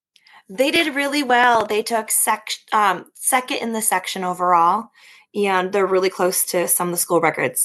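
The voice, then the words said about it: Slightly raspy, recovering voice. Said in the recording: “your voice was gone ... I did a little bit too much screaming ... I'm just getting my voice. You can still hear it's a little raspy, but it's not as bad.”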